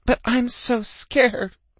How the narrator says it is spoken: I whimpered

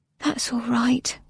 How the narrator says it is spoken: whispered Nona

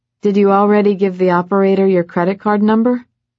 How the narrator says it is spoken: Levi laughed

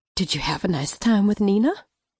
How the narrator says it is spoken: I whispered

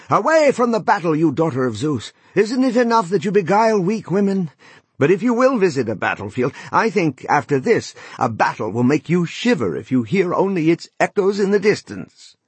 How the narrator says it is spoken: shouted to the goddess

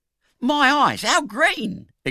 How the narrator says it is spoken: exclaimed the young gentleman

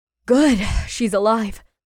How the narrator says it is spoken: he said with a sigh of relief

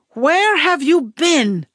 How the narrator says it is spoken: Mommy screamed

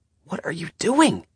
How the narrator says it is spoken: Nick gasped

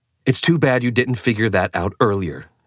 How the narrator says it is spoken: said angrily

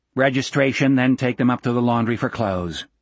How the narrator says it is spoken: Gardner said in a flat voice

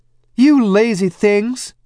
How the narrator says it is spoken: she cried

